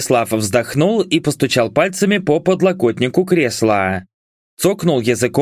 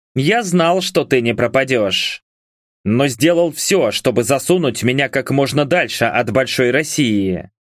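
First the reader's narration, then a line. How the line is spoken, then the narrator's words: Snort, then speaking. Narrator (Russian): Влад хмыкнул и сказал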